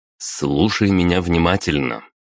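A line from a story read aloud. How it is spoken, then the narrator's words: Decisive tone. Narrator (Russian): заговорил я решительным тоном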